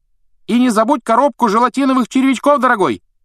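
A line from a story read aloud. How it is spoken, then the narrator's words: Female voice shouting after. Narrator (Russian): крикнул вдогонку женский голос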